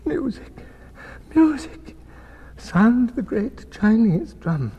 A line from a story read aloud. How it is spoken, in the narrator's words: cried